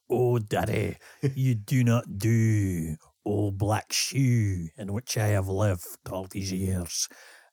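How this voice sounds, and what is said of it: Broad heavy Glaswegian accent. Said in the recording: “reading Sylvia Plath with a really broad Glaswegian accent ... with a heavy Glaswegian accent”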